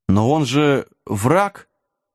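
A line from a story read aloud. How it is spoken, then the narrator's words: Unsure squeak, younger voice. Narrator (Russian): неуверенно вякнул какой-то гном помоложе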